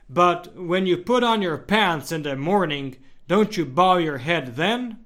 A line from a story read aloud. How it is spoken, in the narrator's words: The priest, baffled, asked sharply